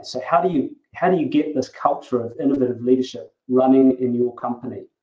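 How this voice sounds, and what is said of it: New Zealand accent. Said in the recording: “as you may have noticed from my accent, I'm actually a Kiwi”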